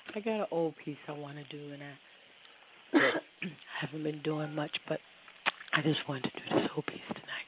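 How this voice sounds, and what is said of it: Slightly rough, impaired voice. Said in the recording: “my voice is a little messed up”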